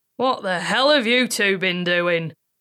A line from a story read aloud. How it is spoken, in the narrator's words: Gramps bellowed